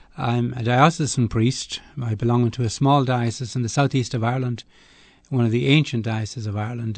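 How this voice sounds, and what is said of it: Irish accent. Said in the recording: “I'm an Irish man, of course. ... I can tell. ... the accent is a giveaway at once.”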